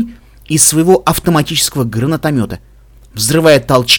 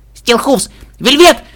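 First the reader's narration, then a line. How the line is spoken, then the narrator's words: Shout. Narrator (Russian): крикнул я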